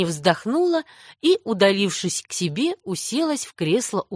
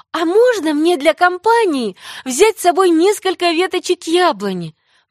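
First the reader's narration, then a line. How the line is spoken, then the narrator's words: Pleading. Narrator (Russian): взмолилась Энни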